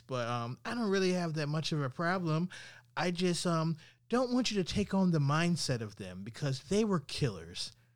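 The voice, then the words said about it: Condescending mocking voice. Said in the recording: “in a condescending voice.”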